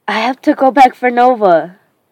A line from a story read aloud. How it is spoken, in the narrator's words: I shout